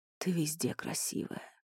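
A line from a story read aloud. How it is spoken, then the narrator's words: Hoarse reassurance. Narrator (Russian): хрипло заверил Элай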